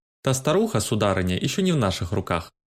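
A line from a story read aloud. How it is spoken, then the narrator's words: Dry, curt. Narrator (Russian): сухо оборвал ее Баундерби, не видя повода для хвастовства в этом разговоре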